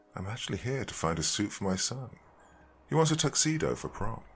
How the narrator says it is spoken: said in a soft voice

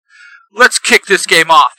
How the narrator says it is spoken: Tackletron shouts

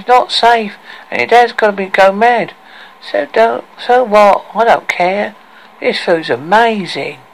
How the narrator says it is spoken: said Aria in a whining, nasal voice

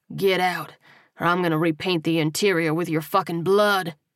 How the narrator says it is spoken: he snarled

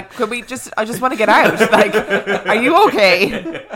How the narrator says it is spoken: Dan will run around the corner screaming

